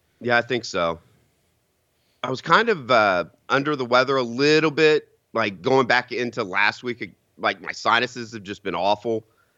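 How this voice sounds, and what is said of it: Strained, failing voice. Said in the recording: “what's wrong with my voice this morning ... I've run myself ragged voice ... I'm losing my voice”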